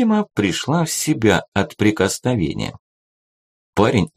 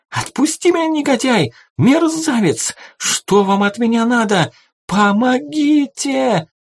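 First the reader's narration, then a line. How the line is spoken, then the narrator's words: Young woman screaming loudly. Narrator (Russian): Девица закричала в голос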